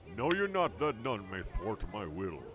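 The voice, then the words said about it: Imitation of a comic-book villain's voice. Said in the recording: “my famous imitation of Galactus.”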